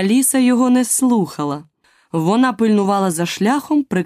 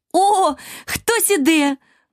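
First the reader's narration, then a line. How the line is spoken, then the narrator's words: Exclaiming. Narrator (Ukrainian): вигукнула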